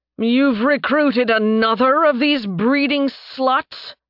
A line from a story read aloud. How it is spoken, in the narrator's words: Tarbin snarled